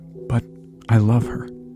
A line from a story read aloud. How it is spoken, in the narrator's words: Myron said in a choked voice